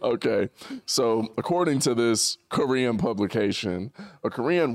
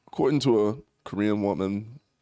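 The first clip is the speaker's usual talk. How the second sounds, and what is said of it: Put-on British accent, half-slipping. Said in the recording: “I could do a British one... turn the accent off... It was like stuck halfway in between both.”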